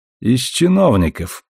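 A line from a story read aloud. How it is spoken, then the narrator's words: Through gritted teeth. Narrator (Russian): процедил Марко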